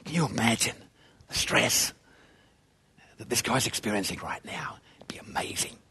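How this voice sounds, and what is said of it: Whispering sports commentator voice. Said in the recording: “the whispering,”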